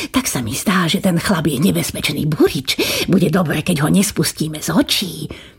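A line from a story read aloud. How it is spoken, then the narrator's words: Whispering in ear. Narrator (Slovak): pošepkal kniežaťu do ucha kastelán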